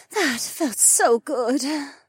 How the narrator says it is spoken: Becca panted

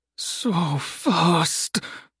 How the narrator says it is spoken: someone groaned

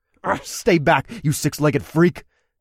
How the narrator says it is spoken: I spat

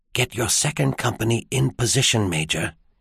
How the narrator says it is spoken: whispered

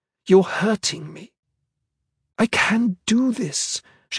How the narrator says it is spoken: she hissed

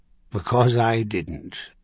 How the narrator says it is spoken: Mandrain half sighed

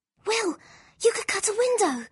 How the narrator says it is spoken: Lyra said urgently

